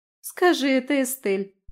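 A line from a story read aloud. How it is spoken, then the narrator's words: Giggling. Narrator (Russian): хихикнула Аби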